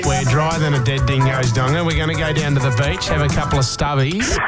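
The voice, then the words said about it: Exaggerated Australian accent. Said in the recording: “Your accent, it's really turning me on. ... Act as Aussie as possible.”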